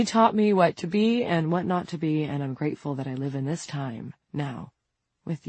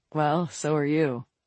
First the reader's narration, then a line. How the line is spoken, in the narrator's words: Vincent said